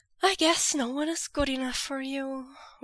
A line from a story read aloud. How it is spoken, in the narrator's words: Wei Ying had sighed